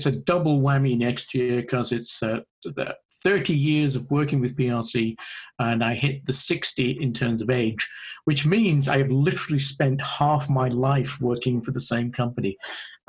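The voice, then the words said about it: British accent. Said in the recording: “As people can probably hear, my accent isn't native to Ohio ... I started working in AAC back in the UK”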